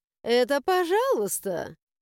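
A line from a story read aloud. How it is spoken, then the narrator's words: Chuckling. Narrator (Russian): хохотнула черноглазая драконица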